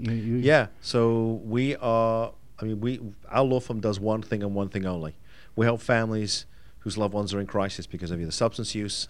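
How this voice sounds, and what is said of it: Fading British accent. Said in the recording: “my accent is like my hair. It's there, but it's definitely going ... that's one of the coolest accents ever”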